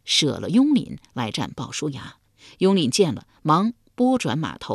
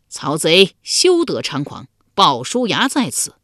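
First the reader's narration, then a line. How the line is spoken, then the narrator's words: Warrior shouting loudly. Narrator (Chinese): 一将 高声叫道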